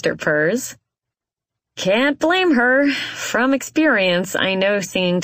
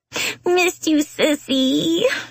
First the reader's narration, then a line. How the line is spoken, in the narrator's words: she squeals